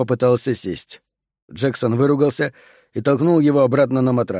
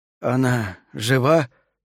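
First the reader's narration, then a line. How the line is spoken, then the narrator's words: Strained, forced out. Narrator (Russian): выдавил из себя Сол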